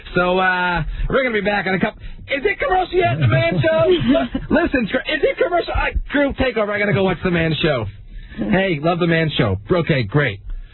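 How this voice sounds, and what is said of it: Imitates another person's voice. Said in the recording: “Here's my impression of Adam when the Man Show was on during the week.”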